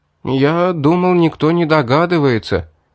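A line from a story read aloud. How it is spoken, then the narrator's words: Drawn-out, almost plaintive. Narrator (Russian): почти жалобно протянул Вастин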